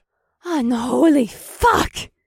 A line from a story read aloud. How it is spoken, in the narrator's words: Akira bellowed